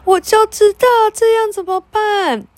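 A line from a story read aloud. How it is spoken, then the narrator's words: Involuntary shout. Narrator (Chinese): 佩特纳拉忍不住喊起来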